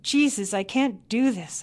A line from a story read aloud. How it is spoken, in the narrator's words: I cried